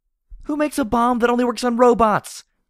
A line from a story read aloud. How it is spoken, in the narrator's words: I screamed back at her